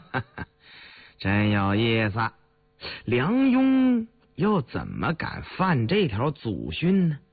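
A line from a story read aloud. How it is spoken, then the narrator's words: Laughing. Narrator (Chinese): 李卫又笑了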